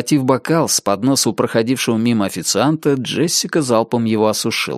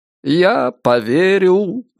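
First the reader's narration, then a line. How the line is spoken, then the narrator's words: Cheerful singsong. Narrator (Russian): весело пропел Ричард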